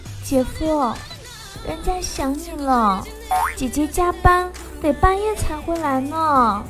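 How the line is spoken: Voice drifting from behind. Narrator (Chinese): 一个声音从后面飘了过来

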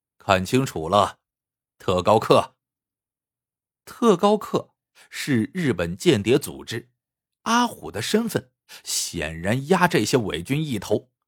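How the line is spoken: Cold. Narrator (Chinese): 阿虎冷冷的说

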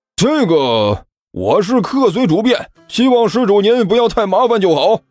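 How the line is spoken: Smiling question. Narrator (Chinese): 徐主任笑着问道

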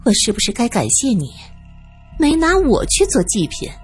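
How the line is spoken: Sighing, to himself. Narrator (Chinese): 他叹了口气，像是自言自语

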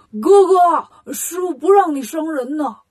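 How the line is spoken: Calling out. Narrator (Chinese): 八戒对孙悟空喊

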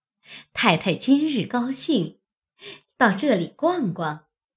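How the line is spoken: Ingratiating smile. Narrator (Chinese): 凤姐因陪笑问道

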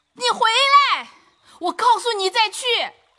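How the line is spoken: Anxious, hurried shout. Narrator (Chinese): 不免着起急来，又忙喊道

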